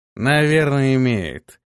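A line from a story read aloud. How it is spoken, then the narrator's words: Lazy. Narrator (Russian): лениво проговорил тот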